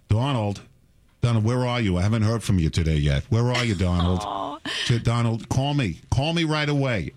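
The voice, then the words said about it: Thick New York accent impression. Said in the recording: “My mother spoke with a very thick New York accent, so I'm not making fun of her.”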